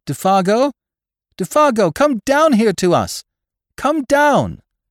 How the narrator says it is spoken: lifting his face to the sky, he cried aloud

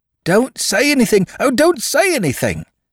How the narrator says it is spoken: cried the atheist cobbler, in an ecstasy of admiration of the English legal system

